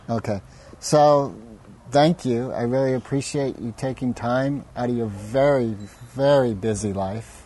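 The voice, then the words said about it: Sarcastic delivery. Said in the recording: “that was sarcasm before, but right now I'm serious”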